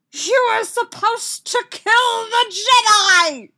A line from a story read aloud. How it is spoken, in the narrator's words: Sidious screamed at the goose